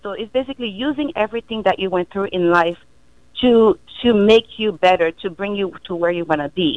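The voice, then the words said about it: Caribbean accent. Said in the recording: “I have a Caribbean accent”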